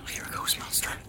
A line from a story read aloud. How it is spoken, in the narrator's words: Sam muttered to himself